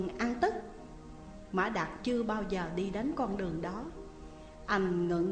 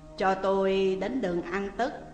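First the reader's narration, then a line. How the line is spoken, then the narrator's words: Very deep nasal voice. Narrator (Vietnamese): Anh ta nói với một giọng mũi rất trầm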